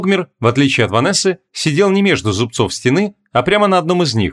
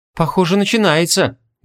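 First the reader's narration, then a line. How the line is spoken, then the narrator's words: Sighing. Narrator (Russian): вздохнула Ванесса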